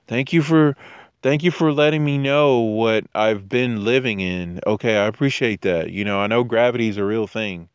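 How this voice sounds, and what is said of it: Snarky sarcastic tone. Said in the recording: “that was sarcasm ... Snarky sarcasm, sarcasm.”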